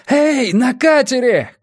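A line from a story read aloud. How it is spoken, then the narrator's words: Shouting. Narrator (Russian): кричал он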